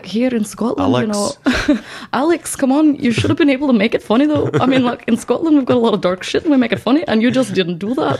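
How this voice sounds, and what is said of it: Put-on Scottish accent. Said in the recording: “I don't really do a Scottish accent”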